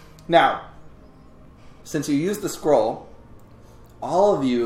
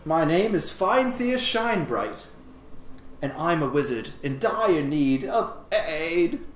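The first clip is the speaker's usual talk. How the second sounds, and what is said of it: Cultured elven accent with slight bleat. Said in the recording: “Morph into a cultured, even accent, elven accented common. Albeit with a slight hint of a bleat, so it's still like a sheep thing.”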